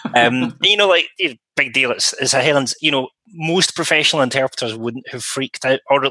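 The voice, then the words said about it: West of Scotland accent. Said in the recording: “in my case, a fairly west of Scotland accent ... didn't sound Queen's English”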